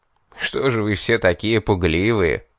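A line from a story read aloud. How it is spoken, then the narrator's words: Mocking. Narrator (Russian): Насмешливо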